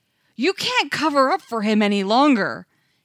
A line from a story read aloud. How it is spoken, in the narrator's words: an ethnographer shouted from somewhere in the back